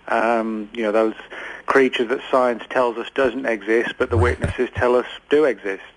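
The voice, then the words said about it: English accent, not Texan. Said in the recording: “that is definitely not a Dallas accent ... I'm actually from England”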